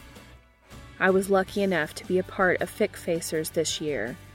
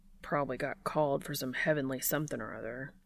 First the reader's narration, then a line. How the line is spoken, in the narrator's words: Dean mutters to himself